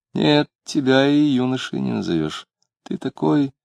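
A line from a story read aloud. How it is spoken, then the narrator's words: Fairly soft, smiling. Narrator (Russian): с непонятной улыбкой, сказала довольно мягко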